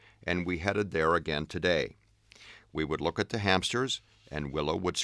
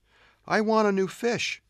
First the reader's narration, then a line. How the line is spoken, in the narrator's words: the girl pleaded